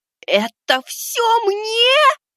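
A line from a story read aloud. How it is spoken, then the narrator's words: Squeaked. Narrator (Russian): запищал я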